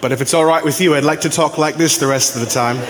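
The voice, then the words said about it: Put-on British accent. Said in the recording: “hearing English in a British accent”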